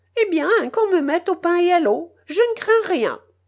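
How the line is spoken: Angry shout. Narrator (French): criait sa canica emportée

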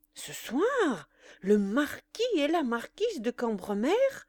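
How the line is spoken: Exclaimed. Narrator (French): s'écria Cottard

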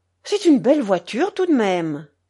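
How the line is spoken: Admiring exclamation. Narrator (French): s'écria Crémière

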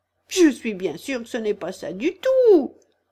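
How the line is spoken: Tearful exclamation. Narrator (French): s'écria la pauvre Alice, et ses yeux se remplirent de larmes

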